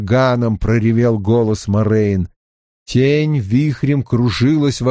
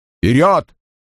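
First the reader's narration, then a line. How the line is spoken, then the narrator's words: Shout. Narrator (Russian): крикнул Лан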